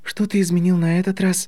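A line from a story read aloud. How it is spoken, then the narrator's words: Slightly tired question. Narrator (Russian): немного устало спросила Гермиона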